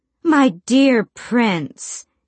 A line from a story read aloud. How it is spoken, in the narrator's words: she drawled